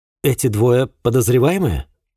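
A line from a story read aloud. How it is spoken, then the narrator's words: Plain question. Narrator (Russian): спросил Тергут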